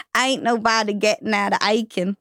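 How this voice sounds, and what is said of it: Put-on Southern American accent. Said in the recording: “Southern accent”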